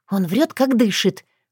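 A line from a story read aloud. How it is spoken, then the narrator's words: Indignant whisper. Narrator (Russian): возмущенно прошептала Татьяна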